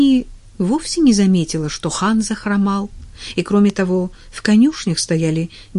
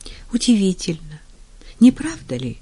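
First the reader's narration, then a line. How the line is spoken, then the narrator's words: Sigh. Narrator (Russian): вздохнула она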